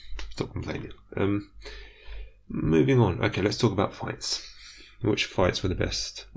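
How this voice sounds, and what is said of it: British accent. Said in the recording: “I am taking a notably British slant. Listen to my accent.”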